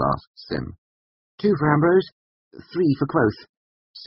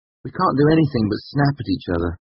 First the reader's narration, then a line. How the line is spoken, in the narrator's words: I said